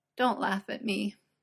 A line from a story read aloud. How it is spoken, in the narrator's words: Merlin sniffs miserably, hiding his face